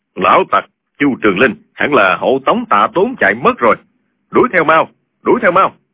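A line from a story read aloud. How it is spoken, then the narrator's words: Gruff, deep voice. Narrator (Vietnamese): giọng ồm ồm nói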